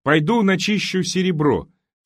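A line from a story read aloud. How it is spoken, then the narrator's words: Fairly loud. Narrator (Russian): сказал он достаточно громко, чтобы Сюзанна его услышала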